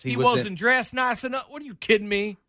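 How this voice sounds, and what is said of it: Put-on southern accent. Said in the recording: “Why did you just go in a southern accent? ... you just went into Django”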